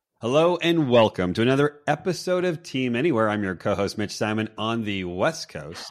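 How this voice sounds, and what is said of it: Polished radio announcer voice. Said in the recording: “Mr. Man with the perfect radio voice”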